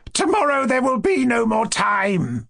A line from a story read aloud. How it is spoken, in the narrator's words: Ippolit laughed hysterically